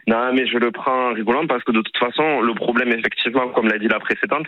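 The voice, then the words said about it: Southern French accent. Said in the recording (French): “vous êtes du sud ... on l'entend avec votre ... petit accent.”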